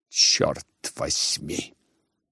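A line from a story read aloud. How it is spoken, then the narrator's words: Furious whisper. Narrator (Russian): прошептала мадемуазель Бланш, бешено сверкнув глазами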